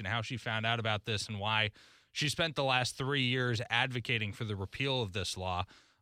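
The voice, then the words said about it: Polished radio announcer voice. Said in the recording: “you got such a great radio voice”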